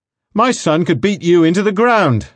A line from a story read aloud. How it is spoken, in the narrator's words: I shouted